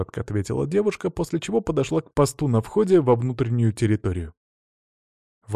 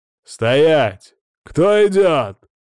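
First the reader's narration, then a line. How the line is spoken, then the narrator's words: Man's shout. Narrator (Russian): крикнул мужчина лет 30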